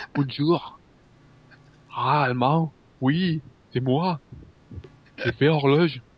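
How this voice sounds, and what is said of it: Imitates an actor's exaggerated accent. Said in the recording (French): “un super mec avec un super accent qui est au top de l'acting”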